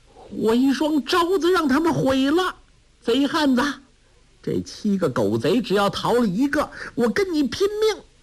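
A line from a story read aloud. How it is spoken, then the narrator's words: Anguished cry. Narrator (Chinese): 梅超风惨声叫道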